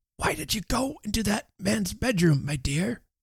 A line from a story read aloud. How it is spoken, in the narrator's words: whispered Mr